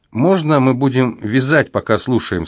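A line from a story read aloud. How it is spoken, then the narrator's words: Plain question. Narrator (Russian): спросила Анна Лизбет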